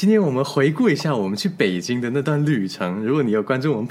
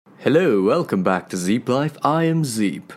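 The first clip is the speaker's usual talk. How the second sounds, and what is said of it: Put-on British English accent. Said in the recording (Chinese): “我的英式口音性不性感？... 性感”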